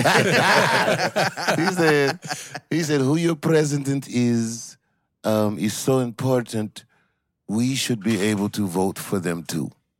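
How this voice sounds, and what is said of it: Put-on French accent. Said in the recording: “I'm sorry about the bad accent. ... No, it was perfect. ... It was like being in Paris.”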